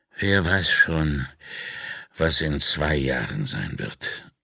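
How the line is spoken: Groaning. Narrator (German): stöhnte er

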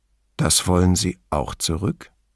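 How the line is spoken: Calm question. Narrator (German): fragte er ruhig

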